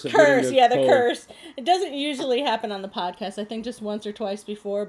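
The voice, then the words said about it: Congested, slightly strange-sounding voice. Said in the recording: “my weird voice. I'm getting over a cold. ... I sound weird.”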